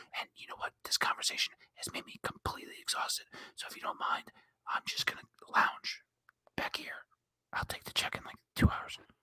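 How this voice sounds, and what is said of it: Calm whispering voice. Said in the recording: “Just that calm whispering voice.”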